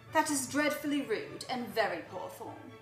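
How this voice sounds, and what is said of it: Put-on English accent, slightly Australian. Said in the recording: “your accent is spot on ... There's a few times like, I go a little Australian”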